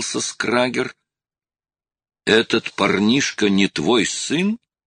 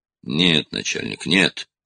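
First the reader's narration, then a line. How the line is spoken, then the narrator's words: Quick mutter, suppressed rage. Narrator (Russian): быстро пробормотал Скрагер, напрягая все силы, чтобы лицо не выдало ослепившего его гнева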